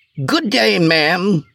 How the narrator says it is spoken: spoke in a whining voice

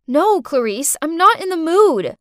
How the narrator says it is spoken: shouted

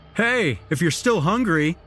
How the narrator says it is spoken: the jock shouted at me

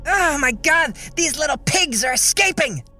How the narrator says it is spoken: Lucy came out suddenly and screamed

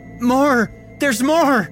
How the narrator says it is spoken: screamed out

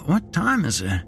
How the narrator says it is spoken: He slurred

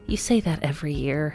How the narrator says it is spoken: Heather sighed

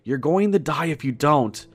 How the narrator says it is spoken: I yell at him

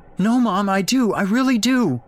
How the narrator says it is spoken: Jake wailed, now distraught as well as confused

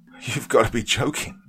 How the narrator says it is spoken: Trevor laughed

